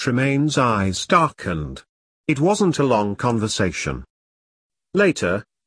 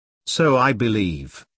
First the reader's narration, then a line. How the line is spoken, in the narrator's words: Edge said evenly, although he wanted to smash his glass in this leering prick's face